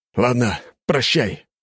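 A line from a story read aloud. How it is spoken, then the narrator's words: Sighing. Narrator (Russian): вздохнул Коганов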